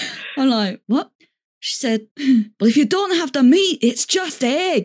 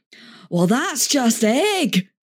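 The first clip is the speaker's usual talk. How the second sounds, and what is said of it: Attempted Scottish accent. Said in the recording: “I have to try and do the accent. ... Building up to a good Scottish.”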